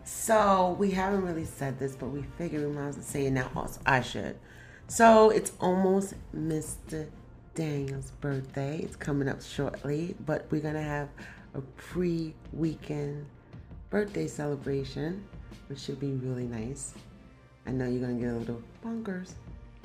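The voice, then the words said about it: Very quiet, near-whispered speech. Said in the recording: “Why you whisper? ... People could barely hear you with your passionate voice.”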